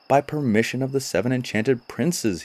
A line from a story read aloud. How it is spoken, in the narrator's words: he cried